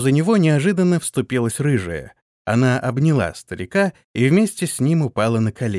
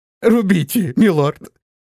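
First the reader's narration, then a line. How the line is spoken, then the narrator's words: Sobbing, submissive. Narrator (Russian): Плача и всхлипывая, покорно произнес он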